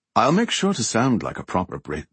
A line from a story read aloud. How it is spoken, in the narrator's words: she said in her best upper crust accent